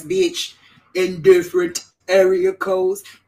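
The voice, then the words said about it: Imitates another person's voice. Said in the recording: “in my best Nate voice,”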